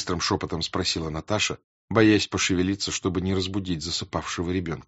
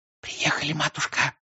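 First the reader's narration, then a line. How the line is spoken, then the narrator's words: Whisper. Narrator (Russian): прошептала няня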